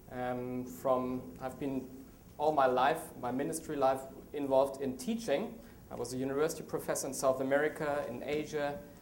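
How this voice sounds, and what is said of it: German accent. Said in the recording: “I'm from Germany. Strange name, strange accent.”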